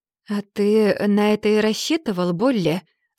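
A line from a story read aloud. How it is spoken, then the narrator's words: Calm. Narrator (Russian): спокойно проговорил Раут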